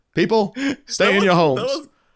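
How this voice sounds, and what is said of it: Obama impression. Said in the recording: “Is that a good impression? ... That was good.”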